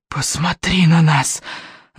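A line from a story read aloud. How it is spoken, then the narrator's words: Hissing heads. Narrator (Russian): зашипели головы Смертиня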